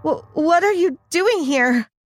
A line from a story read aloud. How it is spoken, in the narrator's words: I asked in a trembling voice